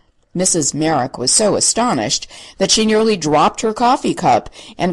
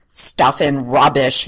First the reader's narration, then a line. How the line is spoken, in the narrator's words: he growled